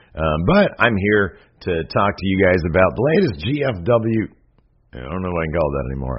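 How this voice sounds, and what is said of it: Strained, failing voice. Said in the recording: “my voice is going out”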